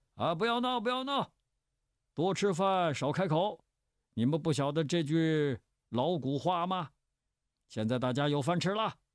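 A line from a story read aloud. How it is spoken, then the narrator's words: Laughing, calling repeatedly. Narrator (Chinese): 周仲伟……哈哈笑着……连声叫道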